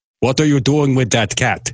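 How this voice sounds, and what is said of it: Count Dracula impression. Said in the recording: “you sounded a little bit like Count Dracula there ... approximating Count Dracula ... It was a cereal box version”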